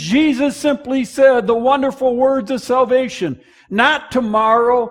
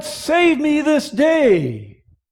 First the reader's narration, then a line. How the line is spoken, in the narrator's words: he cried out